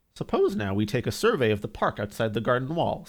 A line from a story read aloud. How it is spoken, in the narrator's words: said Mr